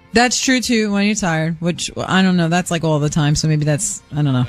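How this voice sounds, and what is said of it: Thick regional accent. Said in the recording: “has a pretty thick accent”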